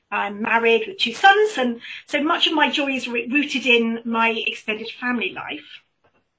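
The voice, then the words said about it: British accent. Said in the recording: “by my accent, I'm British”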